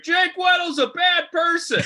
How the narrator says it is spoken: your ex set up shop in the square and just screamed

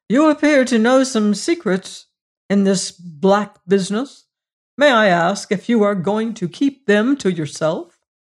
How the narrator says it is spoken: said the physician harshly

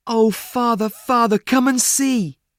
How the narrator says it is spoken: he cried

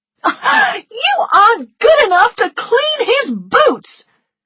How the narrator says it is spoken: she shouted

